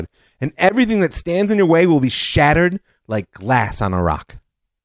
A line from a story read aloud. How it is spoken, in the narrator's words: called out to the crowd